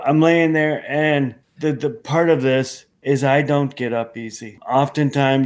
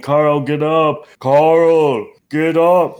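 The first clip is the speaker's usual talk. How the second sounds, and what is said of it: Imitated voice of God. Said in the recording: “That was the voice of God, by the way ... a good imitation. Sounds a lot like, you know, what I've heard.”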